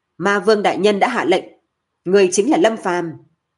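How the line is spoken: Loud. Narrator (Vietnamese): Thẩm Phi Minh lớn tiếng nói

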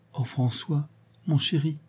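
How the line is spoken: Murmured with inexpressible joy. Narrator (French): murmura, avec une joie indicible

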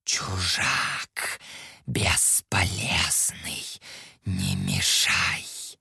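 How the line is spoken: Snake-like hiss. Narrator (Russian): Голос пиявки походил на змеиное шипение

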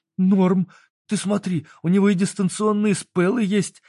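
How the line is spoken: Teen exclaiming. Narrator (Russian): воскликнул подросток

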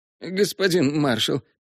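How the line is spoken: Babbling. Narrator (Russian): лепетал недавний храбрец

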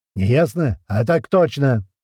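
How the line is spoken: Barked shout. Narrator (Russian): гаркнул Полос

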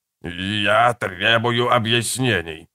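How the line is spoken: Growling. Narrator (Russian): зарычал Сако

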